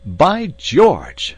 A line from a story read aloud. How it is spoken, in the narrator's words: cried Lord John